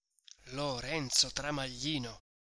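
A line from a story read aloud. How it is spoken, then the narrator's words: Plain. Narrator (Italian): disse Renzo Tramaglino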